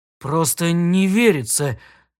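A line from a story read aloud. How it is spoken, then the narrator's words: Trembling voice. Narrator (Russian): дрожащим голосом сказал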